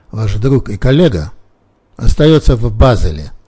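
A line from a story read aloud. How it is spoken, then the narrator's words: Cold. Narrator (Russian): холодно проговорил Симпсон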